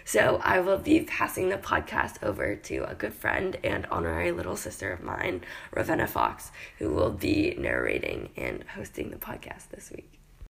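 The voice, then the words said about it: Hoarse, worn-out voice. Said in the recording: “My voice is completely shot this week”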